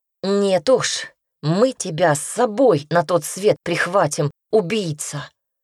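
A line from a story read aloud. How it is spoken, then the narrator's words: Hissing. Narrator (Russian): прошипел Петька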